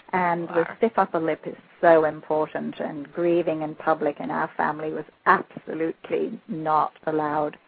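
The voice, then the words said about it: Slight English accent. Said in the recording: “I've got a little bit of an English accent left”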